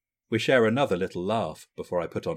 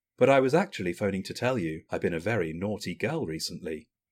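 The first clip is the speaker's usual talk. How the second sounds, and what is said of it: Mock-serious voice. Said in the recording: “put on a serious voice.”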